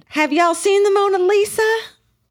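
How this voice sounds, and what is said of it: Southern drawl. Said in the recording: “in a southern drawl”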